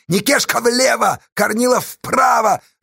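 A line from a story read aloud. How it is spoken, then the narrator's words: Shout. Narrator (Russian): закричала Сташа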